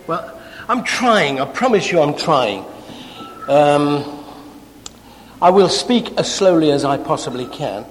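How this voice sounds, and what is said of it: English accent. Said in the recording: “I can do nothing about the accent, I'm sorry. It's where I was born. My mum and dad spoke like this. ... English slang words”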